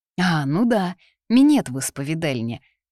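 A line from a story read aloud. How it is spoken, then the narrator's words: Sigh. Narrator (Russian): она вздохнула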